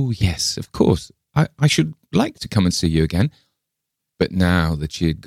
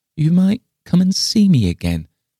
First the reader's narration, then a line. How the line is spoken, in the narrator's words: replied Miss Lefane wistfully